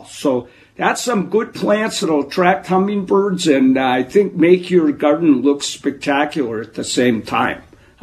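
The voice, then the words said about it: Wisconsin accent. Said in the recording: “that Wisconsin accent that you have”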